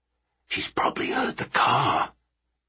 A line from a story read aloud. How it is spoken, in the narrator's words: Sparks whispered